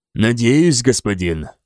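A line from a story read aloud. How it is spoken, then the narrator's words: Gloomy reply. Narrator (Russian): мрачно ответил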